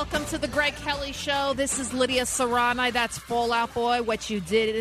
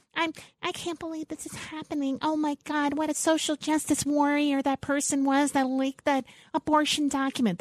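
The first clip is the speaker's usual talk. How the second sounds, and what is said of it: AOC impression, emotional and upset. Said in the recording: “That's my AOC impersonation.”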